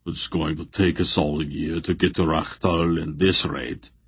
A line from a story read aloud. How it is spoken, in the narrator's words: Barak rumbled sourly